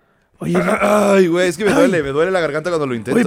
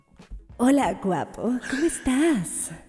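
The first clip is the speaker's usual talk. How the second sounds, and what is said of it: Imitates another person's voice. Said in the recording (Spanish): “mi imitación de Riva ... qué increíble imitación ... Está idéntica”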